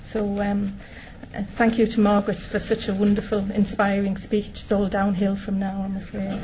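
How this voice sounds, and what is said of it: Northeast English accent. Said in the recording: “As you can probably tell by the accent, I'm from the northeast of England”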